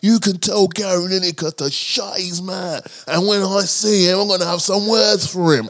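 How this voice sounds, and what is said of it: Put-on accent, convincingly done. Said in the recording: “That's a good accent ... I'm sounding a bit too authentic ... You did that well”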